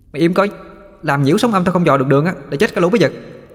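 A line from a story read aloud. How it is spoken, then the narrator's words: Shout. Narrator (Vietnamese): Nó quát vào mặt tôi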